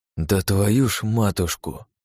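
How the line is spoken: Exhaled exclamation. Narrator (Russian): выдохнул

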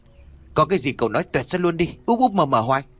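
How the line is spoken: Snapping irritably. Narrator (Vietnamese): gắt

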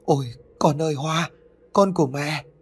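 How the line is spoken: Exhausted anguished moan. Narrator (Vietnamese): Chị Nhầm lúc này dường như đã cạn kiệt tinh thần và sức lực, cho nên chị thống thiết rên lên

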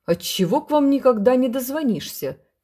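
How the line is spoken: Shouting. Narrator (Russian): кричал он

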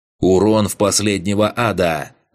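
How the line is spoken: Yelling over voice chat. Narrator (Russian): заорал он в общий канал рейда

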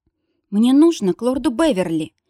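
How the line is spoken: Trembling voice. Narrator (Russian): сообщила дрожащим голосом

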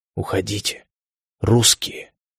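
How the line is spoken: Barely audible whisper. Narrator (Russian): еле слышно прошептал

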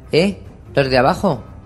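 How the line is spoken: Shouting. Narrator (Spanish): gritó

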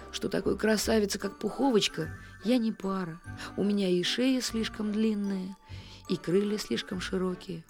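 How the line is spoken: Glum. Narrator (Russian): добавил он уныло

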